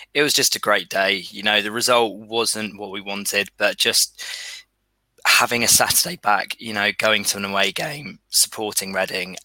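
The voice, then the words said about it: Strained, worn-out voice. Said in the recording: “As you could probably tell, my voice is still suffering a little bit from yesterday.”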